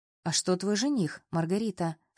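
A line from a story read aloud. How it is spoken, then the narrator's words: Plain question. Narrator (Russian): спросил Воронцов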